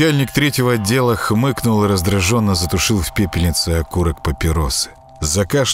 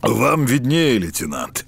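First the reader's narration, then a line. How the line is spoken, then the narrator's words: Hoarse voice. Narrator (Russian): хрипло проговорил он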